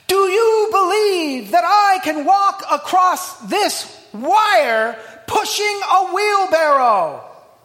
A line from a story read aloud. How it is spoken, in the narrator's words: he called out